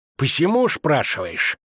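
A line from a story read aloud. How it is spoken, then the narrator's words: Hissed, leaning close. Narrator (Russian): зашипел он, наклоняясь в седле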